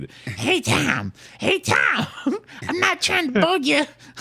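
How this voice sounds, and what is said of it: Imitates another person's voice. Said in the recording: “I can actually do his voice. It's the only impression I can do.”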